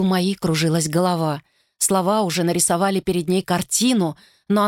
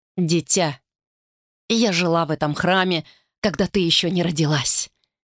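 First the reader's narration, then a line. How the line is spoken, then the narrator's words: Gentle reply. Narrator (Russian): мягко ответила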